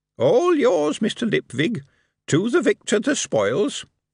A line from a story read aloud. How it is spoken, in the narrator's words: the darkness said cheerfully